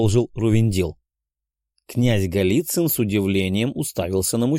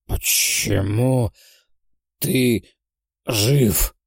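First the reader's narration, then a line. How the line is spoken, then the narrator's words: Dying, wheezing, labored question. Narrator (Russian): Хрипя и с трудом выговаривая слова, спросил умирающий демон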